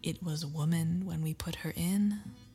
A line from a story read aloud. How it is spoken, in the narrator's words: whispered Fetz